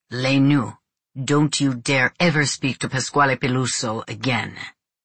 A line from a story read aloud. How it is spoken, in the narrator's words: my father said, in a menacing tone